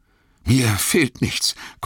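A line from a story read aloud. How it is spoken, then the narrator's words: Panting. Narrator (German): keuchte Frodo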